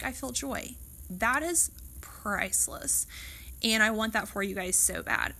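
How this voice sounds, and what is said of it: Choked-up, emotional voice. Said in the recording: “got a little choked up there”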